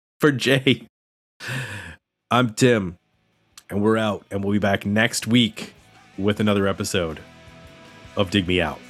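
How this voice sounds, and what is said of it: Strained, failing voice. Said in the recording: “My voice is going to give out now. I can feel it in my throat.”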